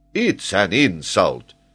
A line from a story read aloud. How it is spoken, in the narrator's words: exclaimed the patriotic geographer